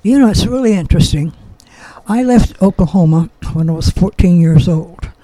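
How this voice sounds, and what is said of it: Slight Oklahoma accent. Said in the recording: “sometimes I seem to detect an accent, but could that be the Oki background? ... people still hear the accent.”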